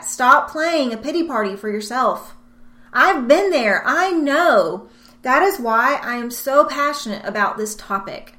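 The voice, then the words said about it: Loud, passionate yelling. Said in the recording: “I'm yelling at you”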